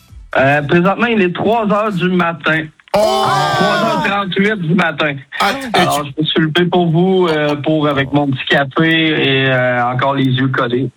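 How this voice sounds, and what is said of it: Quebec French accent. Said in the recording (French): “cet accent québécois ... Vous avez de la chance d'avoir cet accent ... quand t'es québécois, tu parles comme ça”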